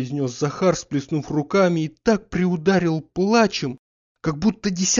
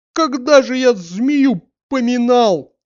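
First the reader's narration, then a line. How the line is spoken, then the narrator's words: Speaking through sobs. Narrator (Russian): говорил он среди рыданий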